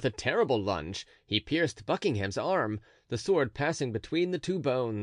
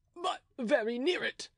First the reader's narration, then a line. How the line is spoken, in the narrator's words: replied De Wardes, in a voice choked by the blood which rushed from his lungs to his throat